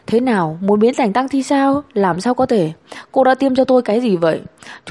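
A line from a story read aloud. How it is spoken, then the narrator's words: Angry. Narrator (Vietnamese): Đường Yên tức giận, nói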